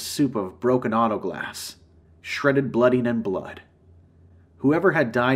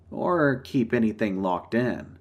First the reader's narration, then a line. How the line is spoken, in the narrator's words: I chuckled